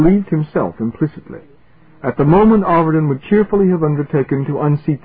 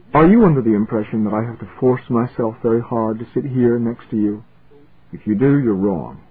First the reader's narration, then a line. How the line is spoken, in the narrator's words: He said softly